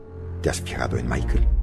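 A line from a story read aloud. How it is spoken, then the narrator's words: Serious murmur. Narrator (Spanish): volvió a ponerse seria y murmuró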